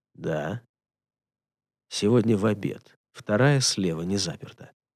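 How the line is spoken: Stoic whisper. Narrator (Russian): стоическим шепотом ответил

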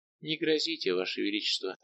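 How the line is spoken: Soft answer. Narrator (Russian): отвечала мягко Бегинка

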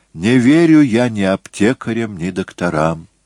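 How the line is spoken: Sighing. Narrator (Russian): вздохнул Моцарт

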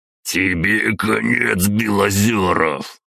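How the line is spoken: Hissed through teeth. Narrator (Russian): процедил граф

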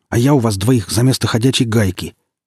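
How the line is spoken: Snapped back. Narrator (Russian): огрызнулся

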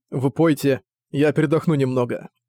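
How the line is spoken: Laughing. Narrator (Russian): Цзуи, смеясь, сказал

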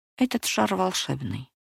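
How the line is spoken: Quiet old man. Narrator (Russian): тихо промолвил старик

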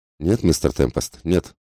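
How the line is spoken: Dry. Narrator (Russian): сказал он сухо

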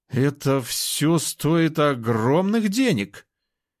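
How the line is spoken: Uncertain. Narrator (Russian): неуверенно заявил тот

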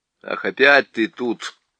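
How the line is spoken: Displeased grumble. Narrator (Russian): недовольно проворчал Юстас

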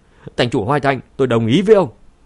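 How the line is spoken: Alarmed, shouting decisively. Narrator (Vietnamese): Khương Nham lập tức biến sắc, không do dự nữa hét lên

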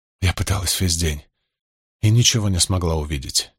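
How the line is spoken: Quiet. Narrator (Russian): тихо сказала она

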